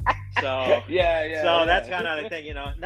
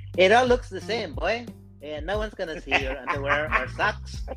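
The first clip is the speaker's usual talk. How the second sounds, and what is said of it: Put-on accent imitating his mother. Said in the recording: “My mom does not talk like this, but this is my accent for her.”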